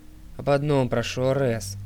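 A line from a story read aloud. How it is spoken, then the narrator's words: Sighing. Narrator (Russian): вздохнул Дионис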